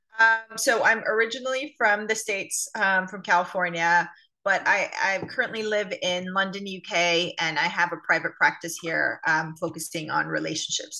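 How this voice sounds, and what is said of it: American accent. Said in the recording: “The accent is obviously still retained ... No hint of that European accent there. At this stage, no, anyway, still very much got that.”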